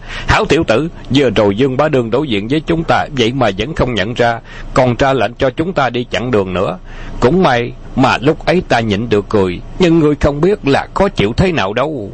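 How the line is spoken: Laughing loudly. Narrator (Vietnamese): Bạc Phong Hàn cười lớn nói

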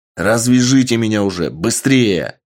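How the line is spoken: Full-voiced bark. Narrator (Russian): рявкнул во весь голос Сергей

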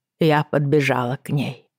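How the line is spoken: Hoarse, dry-throated voice. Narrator (Russian): произнесла Иокаста, хриплым из-за пересохшего горла голосом

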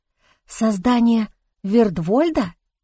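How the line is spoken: Whisper. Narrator (Russian): прошептала я

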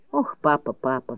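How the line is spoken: Sigh. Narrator (Russian): вздохнула она

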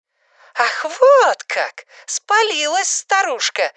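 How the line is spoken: Shouting. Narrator (Russian): закричала она

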